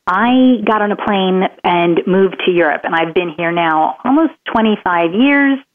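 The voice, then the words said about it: American accent. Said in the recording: “how I have this accent ... in Maryland, where I'm from”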